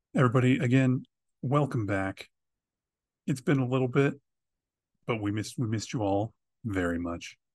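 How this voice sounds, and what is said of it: Put-on podcaster voice. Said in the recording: “Why am I talking like that? I'm talking like a my podcaster voice.”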